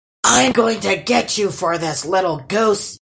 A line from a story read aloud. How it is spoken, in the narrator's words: he roared